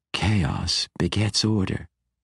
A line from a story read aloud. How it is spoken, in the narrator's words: she whispered